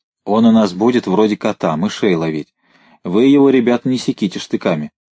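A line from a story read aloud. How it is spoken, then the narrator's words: Plain. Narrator (Russian): сказал Поляков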